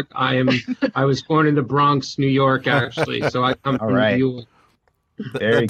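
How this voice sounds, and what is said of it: New York Bronx accent. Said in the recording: “as you could probably hear from my accent... I'm obviously not from here... the Bronx accent, basically.”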